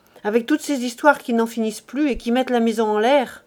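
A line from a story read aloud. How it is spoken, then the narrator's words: Curt, dry. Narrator (French): dit-elle sèchement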